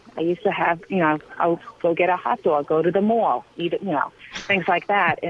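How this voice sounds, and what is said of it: Long Island accent. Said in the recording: “Long Island accent. So I used to talk like this.”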